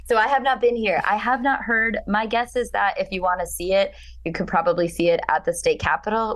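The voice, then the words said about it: Hoarse voice. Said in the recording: “which is why I'm so hoarse, because I was screaming”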